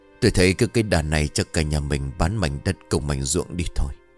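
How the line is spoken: Whispering. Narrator (Vietnamese): ông Hoài thì thầm

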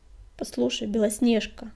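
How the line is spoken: Hesitant. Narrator (Russian): неуверенно начал он

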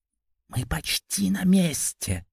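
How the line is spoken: Silent mouthed whisper. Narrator (Russian): Одними губами прошептал

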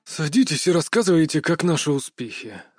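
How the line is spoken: Tired command. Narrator (Russian): скомандовал усталым голосом Кадзимура-сан

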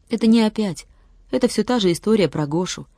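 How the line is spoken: Sigh. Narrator (Russian): вздохнул Владик

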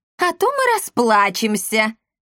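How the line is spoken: Laughing. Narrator (Russian): рассмеялась Эсмеральда

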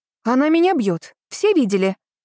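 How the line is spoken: Indignant shout. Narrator (Russian): закричал Сашка, возмущенно

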